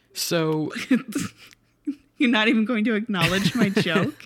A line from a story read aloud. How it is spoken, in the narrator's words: I laughed